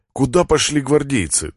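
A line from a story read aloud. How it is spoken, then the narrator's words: Trembling voice. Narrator (Russian): дрожащим голосом спрашиваю я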